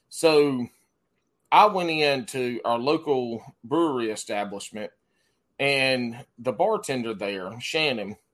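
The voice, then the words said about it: Noticeable regional accent. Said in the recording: “Y'all hear my accent... people pick on my accent.”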